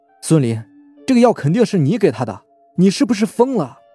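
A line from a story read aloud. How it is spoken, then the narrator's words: Shocked, angry shout. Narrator (Chinese): 白帆是又惊又怒，叫道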